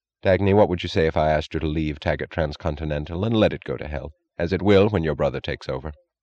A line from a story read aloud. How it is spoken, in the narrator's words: he asked, his voice oddly unstressed